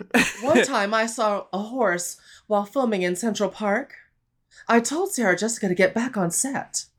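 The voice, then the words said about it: Kim Cattrall impression. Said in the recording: “I can do a good Kim Cattrall.”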